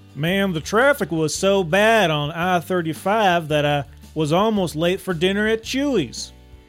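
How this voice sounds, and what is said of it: Put-on Texas accent. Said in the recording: “I'm going to say it in a Texas accent because I've been practicing”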